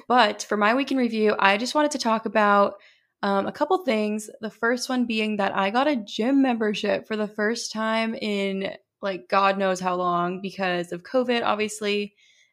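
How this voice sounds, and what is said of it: Hoarse, strained voice. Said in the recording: “sorry if it sounds like I'm losing my voice. I don't feel like I'm losing my voice, but I had a couple people during work comment on it today”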